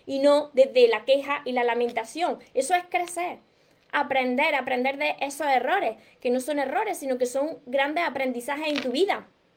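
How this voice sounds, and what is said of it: Southern Spanish accent, dropped S sounds. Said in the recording (Spanish): “me encanta tu tonada... Del sur, de Córdoba... Por eso hablo de esta manera, que me como las S, me como las, las palabras”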